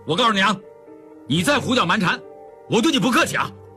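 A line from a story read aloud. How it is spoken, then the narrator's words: Angry, sharp voice. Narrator (Chinese): 秉坤光火起来 厉声道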